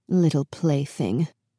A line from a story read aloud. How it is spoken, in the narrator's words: the queen said under her breath to Beauty